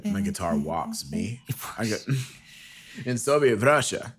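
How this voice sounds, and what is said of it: Poor mock Eastern European accent. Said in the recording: “That's Transylvanian. ... I'm gonna work on the accents, people. I'm sorry.”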